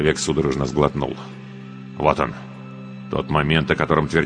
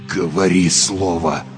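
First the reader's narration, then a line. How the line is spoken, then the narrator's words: Strained, barely audible. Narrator (Russian): Едва выдавил из себя маг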